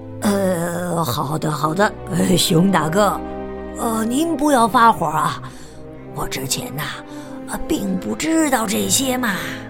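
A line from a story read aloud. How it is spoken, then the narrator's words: Old wolf muttering low. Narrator (Chinese): 老狼低声嘟囔说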